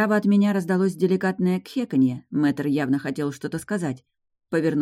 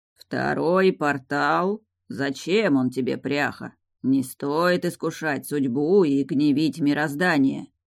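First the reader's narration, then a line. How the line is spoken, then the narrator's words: Dragon's lecturing grumble. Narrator (Russian): поучительно проворчал дракон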